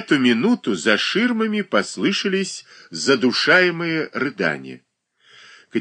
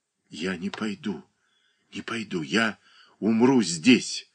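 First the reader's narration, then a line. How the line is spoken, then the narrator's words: Girl mumbling. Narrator (Russian): бормотала девушка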